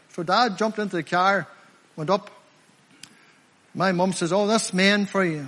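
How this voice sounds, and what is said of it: Rural Limavady regional accent. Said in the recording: “I'm from Limavady District, by the way... I'm a country lad, by the way. You know by my accent, I'm not from around here.”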